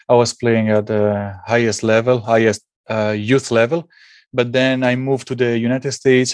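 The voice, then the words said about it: Italian accent. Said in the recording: “While I was in Italy, and maybe you can hear it from my accent”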